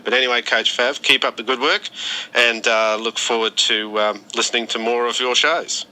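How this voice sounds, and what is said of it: Australian accent. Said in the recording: “don't you love that accent? ... long-distance call from Brisbane, Australia”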